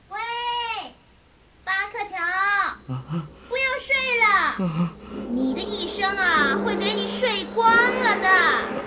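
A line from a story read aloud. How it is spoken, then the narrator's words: Distant call. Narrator (Chinese): 有人在远远的地方喊他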